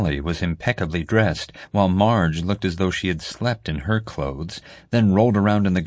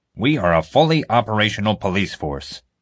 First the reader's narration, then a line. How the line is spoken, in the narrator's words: Honecker growled